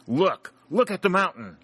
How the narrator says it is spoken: he exclaimed

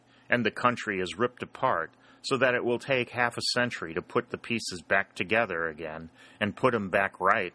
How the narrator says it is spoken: said sadly

